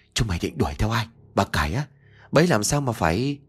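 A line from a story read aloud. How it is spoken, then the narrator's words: Trembling voice. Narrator (Vietnamese): giọng run rẩy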